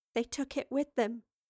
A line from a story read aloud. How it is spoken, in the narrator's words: said quietly